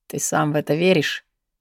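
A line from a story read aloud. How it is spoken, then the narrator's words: Skeptical snort. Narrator (Russian): хмыкнул младший Лабриан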